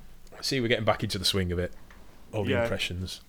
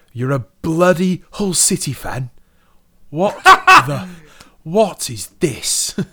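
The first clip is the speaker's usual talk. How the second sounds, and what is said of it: Imitates another person's voice. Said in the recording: “That was actually a really good Regal impression.”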